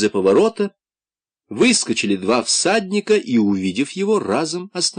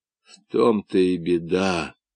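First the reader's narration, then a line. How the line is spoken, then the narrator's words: Muttering. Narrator (Russian): пробормотал Румата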